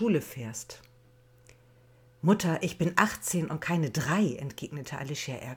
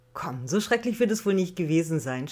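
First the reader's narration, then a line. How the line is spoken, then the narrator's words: Laughing, downplaying. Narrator (German): schwächte Sabrina lachend ab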